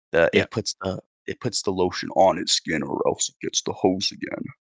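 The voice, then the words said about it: Good impression of a creepy film character. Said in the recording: “That's a very good impression. ... Yes, into Buffalo Bill.”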